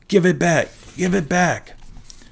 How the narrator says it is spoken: Tyson groaned

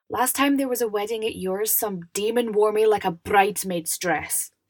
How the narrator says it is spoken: snapped

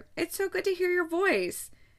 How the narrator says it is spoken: exclaimed her mother

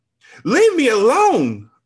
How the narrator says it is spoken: I screamed

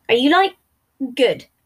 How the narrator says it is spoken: Virgil asked

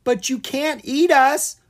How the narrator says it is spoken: Owen cried out

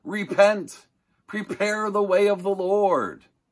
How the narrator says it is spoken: shouting and yelling

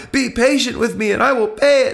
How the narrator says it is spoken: pleaded

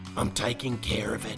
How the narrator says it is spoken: rasped

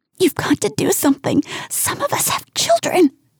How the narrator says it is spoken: she hisses

